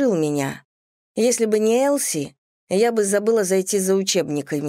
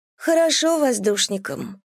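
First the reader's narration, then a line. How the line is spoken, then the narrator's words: Classmate's gloomy puffing. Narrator (Russian): мрачно пыхтела одноклассница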